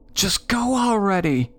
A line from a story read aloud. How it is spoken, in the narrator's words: my sister hollered in my ear